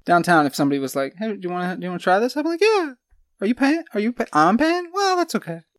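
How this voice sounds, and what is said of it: High squeaky cartoon-like voice. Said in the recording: “That's how I talk in real life. This is my podcast voice. My real life voice sounded like ... Mickey Mouse.”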